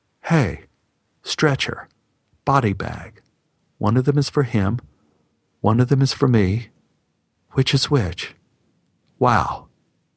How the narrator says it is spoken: thinking quite calmly

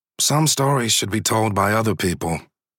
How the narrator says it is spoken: I say, keeping my tone flat

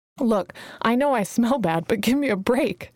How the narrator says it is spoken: she giggled

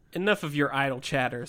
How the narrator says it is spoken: said Sun Zong

